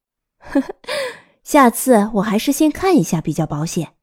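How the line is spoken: Incredulous laughing. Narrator (Chinese): 朱蒂斯难以置信，他笑着说

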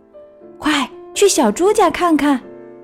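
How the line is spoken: Forceful shout. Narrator (Chinese): 弗洛格用力叫道

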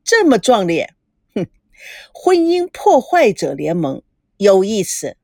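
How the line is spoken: Hearty laughter. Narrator (Chinese): 赵维康听了哈哈大笑

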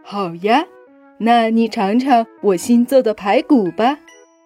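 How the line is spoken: Smiling, friendly. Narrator (Chinese): 小狗微笑着说

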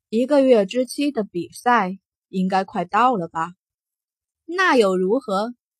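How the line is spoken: Calm, indifferent. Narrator (Chinese): 傲孤一寒 淡淡的开口

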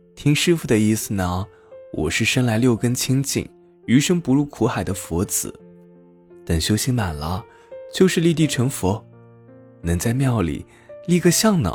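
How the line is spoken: Silly giggling. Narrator (Chinese): 小和尚 傻笑呵呵的说

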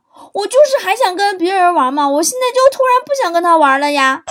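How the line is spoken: Loud child's voice. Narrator (Chinese): 我女儿……很大声的说

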